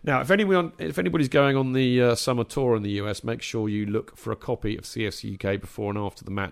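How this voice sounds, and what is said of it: Tired, strained voice. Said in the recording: “give my poor old voice a bit of a rest”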